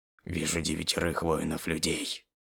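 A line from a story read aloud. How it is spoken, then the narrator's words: Very quiet. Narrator (Russian): начал очень тихо говорить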